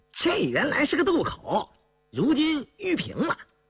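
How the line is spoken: Grinning, cheerful. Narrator (Chinese): 坎儿笑嘻嘻的道

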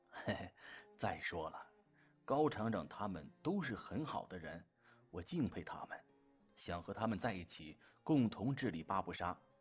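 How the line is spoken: Grinning. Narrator (Chinese): 洛兴国咧嘴笑了

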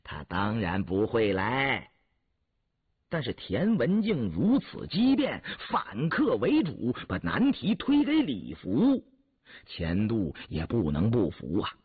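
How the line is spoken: Laughing. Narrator (Chinese): 钱度笑了

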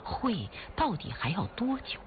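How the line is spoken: Plain question. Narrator (Chinese): 朱团长就问

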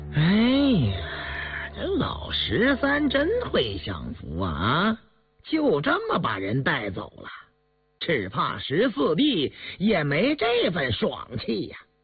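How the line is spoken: Sighing. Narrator (Chinese): 印额不禁叹道

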